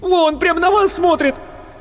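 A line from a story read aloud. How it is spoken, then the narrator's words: Shrieking, yelling. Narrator (Russian): Марина Ходосевич опять взвизгнула, завопила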